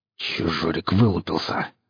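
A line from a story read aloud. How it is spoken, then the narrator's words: Angry hiss. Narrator (Russian): зло прошипел Саха, поймав на себя косой взгляд парня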